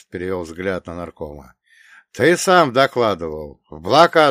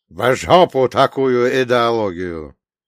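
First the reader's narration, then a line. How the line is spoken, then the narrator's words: Rude interruption. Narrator (Russian): грубо перебил нарком Иосиф Виссарионович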